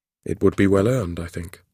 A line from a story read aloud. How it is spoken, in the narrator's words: he said